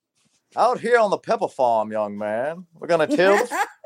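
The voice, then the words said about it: Put-on old Southern accent. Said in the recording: “he's got that old Southern debutante accent... that was so good”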